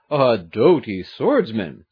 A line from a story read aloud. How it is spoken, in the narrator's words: Gaston de Rebert exclaimed